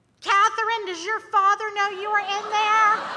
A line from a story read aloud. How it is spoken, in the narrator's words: he yells